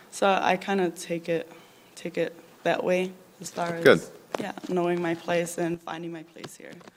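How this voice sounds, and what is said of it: New Zealand accent. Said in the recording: “you still have your same Kiwi accent.”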